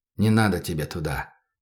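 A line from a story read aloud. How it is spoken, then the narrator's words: Quiet. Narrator (Russian): тихо сказал он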